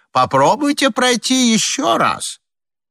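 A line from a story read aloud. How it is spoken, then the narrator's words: Shouting behind locked door. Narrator (Russian): из-за запертой двери снова кричал людям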